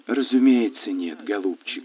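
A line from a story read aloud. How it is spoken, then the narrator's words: Affectionate. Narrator (Russian): ласково произнесла миссис Давлдейл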